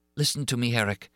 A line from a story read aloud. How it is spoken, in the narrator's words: sighed the girl